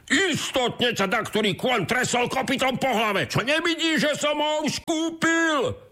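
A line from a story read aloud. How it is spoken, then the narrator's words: Shouted. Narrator (Slovak): zakričal druhý boháč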